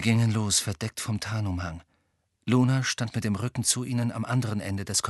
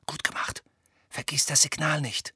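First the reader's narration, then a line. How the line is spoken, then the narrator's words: Whispered. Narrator (German): flüsterte Hermine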